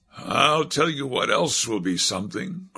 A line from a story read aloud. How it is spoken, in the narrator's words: grunted Voorhees